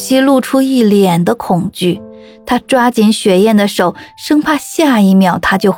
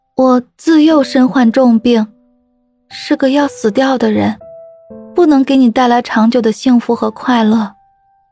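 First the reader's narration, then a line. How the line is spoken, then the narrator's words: Sighing, coughing refusal. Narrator (Chinese): 雪燕叹了口气，她咳得厉害，就对木西拒绝道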